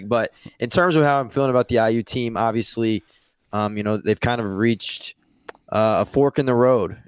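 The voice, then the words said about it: Slightly raspy voice. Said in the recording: “I'd lost my voice after the reunion this past weekend. So I'm happy to have my voice back first and foremost. So if I sound a little raspy”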